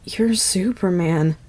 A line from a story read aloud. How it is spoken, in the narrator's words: his raw, cracked voice whisper